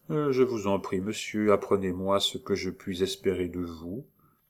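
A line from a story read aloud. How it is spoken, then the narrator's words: Very quiet. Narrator (French): dit tout bas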